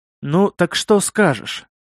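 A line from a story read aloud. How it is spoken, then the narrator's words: Gloomy question. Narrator (Russian): спросил Кривой, мрачно глядя из-под лобья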